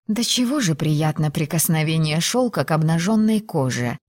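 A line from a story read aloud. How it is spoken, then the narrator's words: Blissful sigh. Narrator (Russian): Блаженно вздохнула Филиппа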